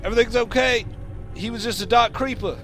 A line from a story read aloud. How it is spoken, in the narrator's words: Ezekiel Kane will yell down to Sid